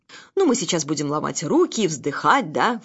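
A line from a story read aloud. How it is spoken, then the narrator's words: Scornful snort. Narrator (Russian): фыркнул Муранов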